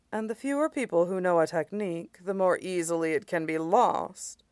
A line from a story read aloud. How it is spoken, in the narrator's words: Tinkcha said gravely